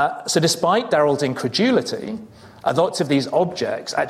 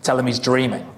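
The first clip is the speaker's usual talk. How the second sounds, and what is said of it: Put-on Australian accent. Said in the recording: “You can see I picked up the accent. That was my Australian accent”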